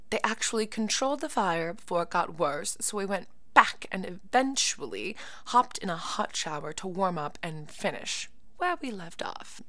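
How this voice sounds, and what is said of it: Poorly done put-on accent. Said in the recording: “Don't mind my accents. I'm only trying to get better here and practice my accents on people, places, and things. Yeah, that one needs a lot of work.”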